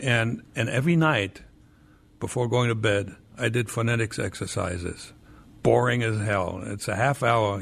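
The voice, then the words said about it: Slight foreign accent in English. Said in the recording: “I can still hear my accent, but for New York, it was good enough ... your accent ... if you grow up speaking German”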